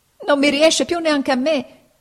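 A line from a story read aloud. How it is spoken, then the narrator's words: Crying shout. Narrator (Italian): gridò Pinocchio, piangendo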